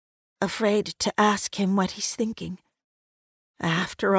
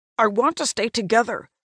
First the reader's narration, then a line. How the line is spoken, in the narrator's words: he blurts out